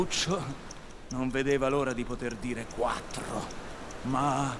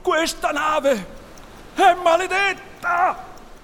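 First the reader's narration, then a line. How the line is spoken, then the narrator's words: Pirates shouting one after another. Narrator (Italian): uno dopo l'altro i pirati gridarono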